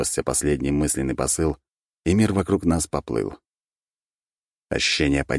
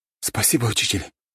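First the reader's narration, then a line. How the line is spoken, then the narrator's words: Breathed out. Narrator (Russian): выдохнул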